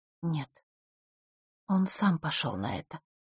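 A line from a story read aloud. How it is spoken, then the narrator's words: Very quiet. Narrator (Russian): очень тихо сказала Захара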